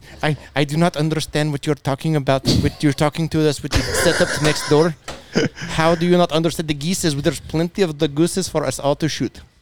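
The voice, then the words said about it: Put-on Indian or Russian accent. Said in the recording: “That's like an Indian-Russian back and forth.”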